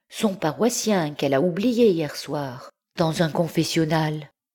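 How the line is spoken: High fluting voice. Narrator (French): continua-t-il d'une voix flûtée

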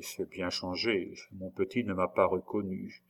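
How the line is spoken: Very quiet. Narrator (French): prononça tout bas André

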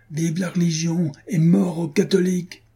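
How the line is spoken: Shouted. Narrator (French): cria-t-il

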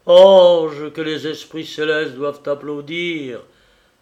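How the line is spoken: Exclaiming. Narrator (French): s'écria-t-il

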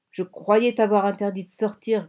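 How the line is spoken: Scolding growl. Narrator (French): gronda-t-il

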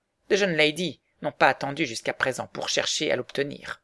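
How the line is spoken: Curt old woman. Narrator (French): dit sèchement la vieille dame

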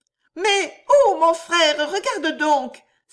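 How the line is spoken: Exclaimed. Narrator (French): s'écria Annette

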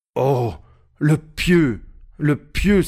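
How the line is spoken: Exclamation. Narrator (French): s'écria Georges

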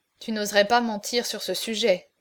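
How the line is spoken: Murmured at last. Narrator (French): murmura enfin Philippe d'Orléans

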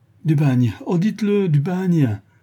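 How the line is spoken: Horrified, distraught cry. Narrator (French): s'écria la malheureuse femme avec horreur et d'une voix presque égarée

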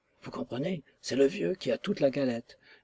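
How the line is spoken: Mysterious whisper. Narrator (French): me souffla mystérieusement Chester

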